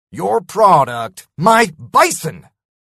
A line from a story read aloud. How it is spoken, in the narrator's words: I spat